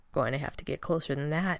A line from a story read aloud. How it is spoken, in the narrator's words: he murmured